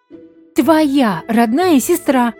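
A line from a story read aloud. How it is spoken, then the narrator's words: Fierce angry shout. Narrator (Russian): крикнула с ожесточением Луиза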